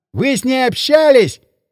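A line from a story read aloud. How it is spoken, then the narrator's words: Shouting. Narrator (Russian): прокричал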